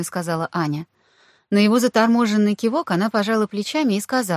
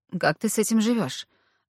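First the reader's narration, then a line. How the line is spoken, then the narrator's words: Strained male voice. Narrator (Russian): выдавил он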